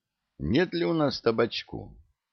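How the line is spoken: Guilty, sheepish question. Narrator (Russian): танкист виноватым голосом спросил

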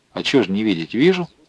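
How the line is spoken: Calm. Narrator (Russian): спокойно отвечал Новиков

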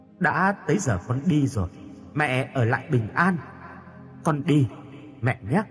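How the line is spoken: Soft gentle voice. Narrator (Vietnamese): Yến khẽ nói

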